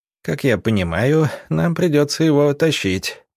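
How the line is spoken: Tired muttering. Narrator (Russian): устало пробормотал Юдичев

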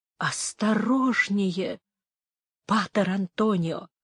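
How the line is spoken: Old man's whisper. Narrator (Russian): проговорил шепотом старый Грант

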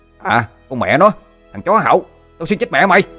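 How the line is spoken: Shouting. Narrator (Vietnamese): thằng Sinh quát lên

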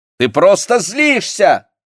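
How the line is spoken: Shouting. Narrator (Russian): кричала она

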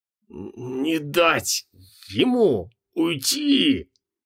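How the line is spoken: Hoarse rasp. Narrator (Russian): прохрипела Санта

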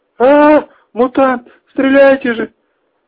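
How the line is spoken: Shrill scream. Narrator (Russian): пронзительно закричала Мара

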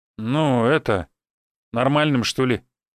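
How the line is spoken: Hesitant reply. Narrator (Russian): неуверенно ответил он

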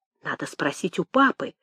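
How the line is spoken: Whispered answer. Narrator (Russian): шепотом ответила она

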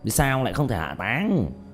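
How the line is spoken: Fierce resentful. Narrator (Vietnamese): Vị đạo sĩ cảm giác quyền uy của mình bị khiêu khích, hậm hực nhìn Diệp Thiếu Dương hung tợn nói

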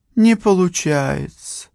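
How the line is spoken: Sad sigh. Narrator (Russian): грустно вздохнула она

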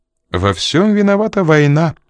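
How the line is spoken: Almost cheerful. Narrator (Russian): почти весело проговорила Энн

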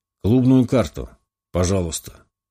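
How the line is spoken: Deep bass, sentry. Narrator (Russian): пробасил дозорный

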